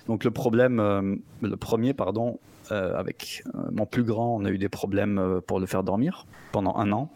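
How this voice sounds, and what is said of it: Slight foreign-sounding accent. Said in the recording (French): “t'as un petit accent un peu de je sais pas quel pays”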